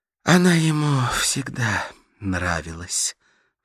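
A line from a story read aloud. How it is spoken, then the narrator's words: Sigh. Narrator (Russian): вздохнула Карла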